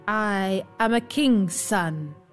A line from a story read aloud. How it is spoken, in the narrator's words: he said